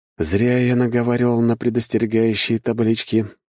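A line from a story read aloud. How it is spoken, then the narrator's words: Sighing. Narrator (Russian): вздохнул я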